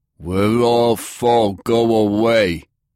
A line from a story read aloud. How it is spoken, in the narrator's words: grunted the man at the front desk